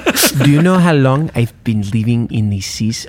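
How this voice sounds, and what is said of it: Weird put-on Middle Eastern accent. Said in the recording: “I don't know why I'm doing that accent. I was trying to do Baron ... like a Zemo ... I went for like weird Middle East.”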